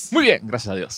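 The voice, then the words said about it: Radio announcer voice. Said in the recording (Spanish): “¡Qué Pinche voz de locutor que acaba de ser el ...!”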